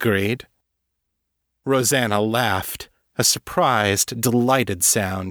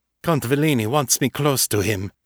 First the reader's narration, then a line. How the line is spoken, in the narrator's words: Emilio said